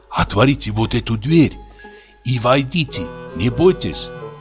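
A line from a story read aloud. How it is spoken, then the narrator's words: Breathless whisper. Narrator (Russian): тяжело перевел дух и сказал шепотом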